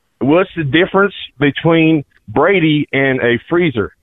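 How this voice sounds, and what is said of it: Put-on Southern US accent. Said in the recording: “I'll do it in an accent. I'll do it in a southern accent. ... very international choice, the South.”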